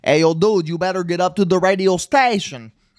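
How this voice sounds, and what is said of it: Spot-on imitated accent of a character. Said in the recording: “accent. I, was... I, I, laugh, but that is literally what he sounds like ... that accent was spot on”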